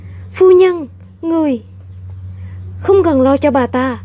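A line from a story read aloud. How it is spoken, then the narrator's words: Hurried cry. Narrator (Vietnamese): Ngô Sở Sở vội kêu lên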